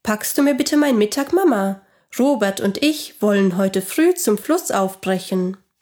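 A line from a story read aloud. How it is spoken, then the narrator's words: Calling out. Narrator (German): rief er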